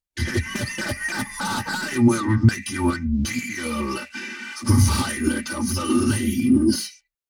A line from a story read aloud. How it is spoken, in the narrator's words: Urgot said with a glutinous chuckle